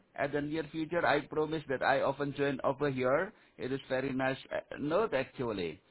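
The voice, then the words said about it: Foreign accent, somewhat hard to understand. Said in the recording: “Your accent is a little bit difficult to understand.”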